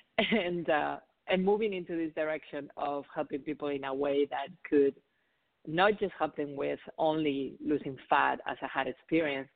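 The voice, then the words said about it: Spanish accent. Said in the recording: “I have an accent. So I'm originally from Spain”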